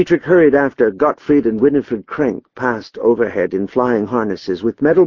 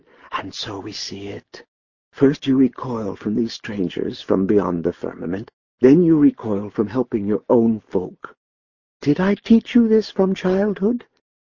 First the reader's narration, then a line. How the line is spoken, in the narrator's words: he whispered